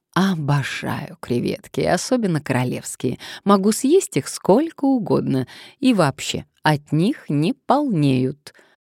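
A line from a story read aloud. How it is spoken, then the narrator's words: Purring. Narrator (Russian): она промурлыкала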